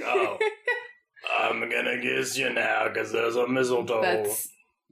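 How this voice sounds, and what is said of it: Imitates another person's voice. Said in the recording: “that's actually exactly what Charles Dickens sounded like... great Charles Dickens impersonation”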